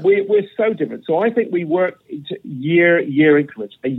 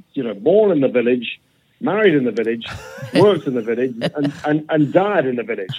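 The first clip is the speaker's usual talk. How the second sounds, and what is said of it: Put-on Yorkshire accent. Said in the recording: “I'm going to put a Yorkshire accent”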